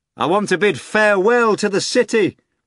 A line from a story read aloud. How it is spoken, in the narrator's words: the master shouted to Azazello